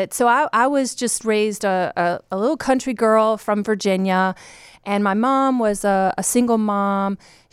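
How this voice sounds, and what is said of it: Slight Southern US accent. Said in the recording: “I have a little bit of a Southern accent. It comes out after we've been talking a little bit.”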